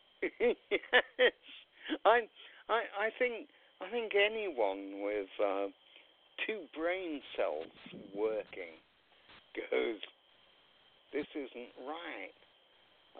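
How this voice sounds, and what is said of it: British accent. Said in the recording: “Your accent gives away ... I presume you came to America from Great Britain, right?”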